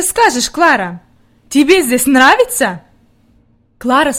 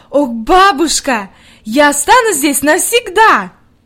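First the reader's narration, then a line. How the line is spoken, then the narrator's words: Delighted exclamation. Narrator (Russian): с восторгом воскликнула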